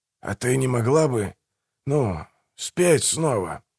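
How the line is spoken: Sheepish whisper. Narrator (Russian): прошептал Манфред, чувствуя себя последним дураком

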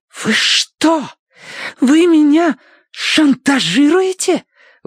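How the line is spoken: Angry exhale into phone. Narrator (Russian): выдохнула в телефон так, что из наушника дохнуло гневным жаром

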